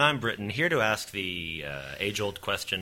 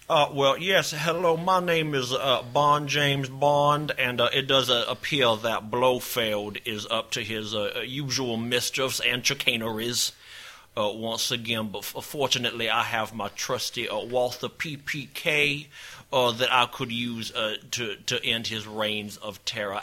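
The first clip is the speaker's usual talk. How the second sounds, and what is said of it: Imitates another person's accent. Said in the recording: “what if Daniel Craig used his knives out accent in the new James Bond? ... I think it would go a little something like this.”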